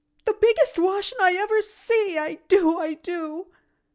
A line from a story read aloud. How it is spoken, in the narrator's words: she wailed, wringing her hands helplessly